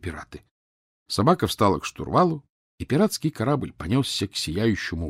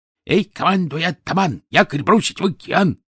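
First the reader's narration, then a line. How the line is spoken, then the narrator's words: Dog's squeal. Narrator (Russian): завизжала собака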